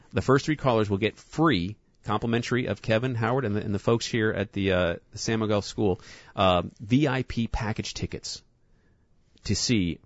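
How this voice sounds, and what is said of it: New York accent. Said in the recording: “because of my New York accent”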